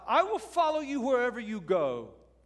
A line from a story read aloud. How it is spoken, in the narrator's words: This first man, unnamed, shouts out